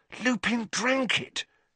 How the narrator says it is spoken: he gasped

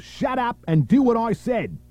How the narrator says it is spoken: Downer screamed

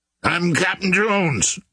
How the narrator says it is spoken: he shouted

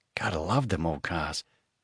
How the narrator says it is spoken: Johnny muttered

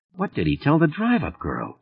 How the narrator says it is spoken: Hamilton muttered

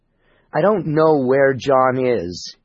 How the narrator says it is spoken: stammered unconvincingly

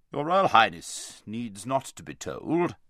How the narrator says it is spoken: said King Lun

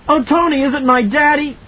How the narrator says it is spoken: Danny screamed

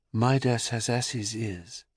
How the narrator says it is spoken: the reed softly whispered

